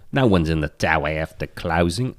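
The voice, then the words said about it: Weak attempted Australian accent. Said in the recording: “What am I, Australian? What the fuck? I can't do the accent.”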